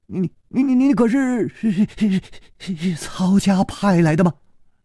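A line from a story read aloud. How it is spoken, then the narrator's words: Trembling young voice. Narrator (Chinese): 那个少年颤声说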